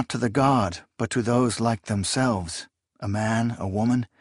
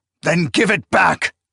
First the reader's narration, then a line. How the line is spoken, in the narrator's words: Akamian barked with savagery